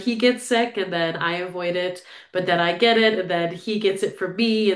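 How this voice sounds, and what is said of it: Nasal, congested sick voice. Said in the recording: “I am a sick shrew today, guys. I'm sure you'll hear it throughout this episode. I sound a bit nasally than normal.”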